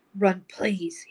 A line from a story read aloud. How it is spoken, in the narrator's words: croaked